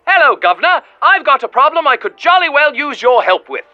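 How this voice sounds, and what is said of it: English accent. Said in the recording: “a caller from across the pond. Though I can't quite place where in England your accent is from.”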